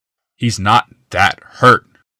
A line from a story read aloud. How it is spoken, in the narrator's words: Glaceon growled at last